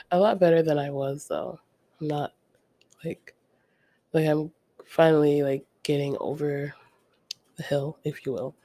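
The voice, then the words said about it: Congested, sick-sounding voice. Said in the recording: “you can hear it in my voice that I'm like under the weather ... still a little congested”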